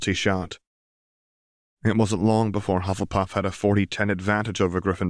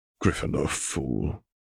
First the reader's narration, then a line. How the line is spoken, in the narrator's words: he muttered under his breath